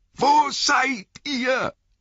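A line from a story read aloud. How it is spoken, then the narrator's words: Angry, frightened shout. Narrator (German): rief er noch einmal, in Wut und Angst zugleich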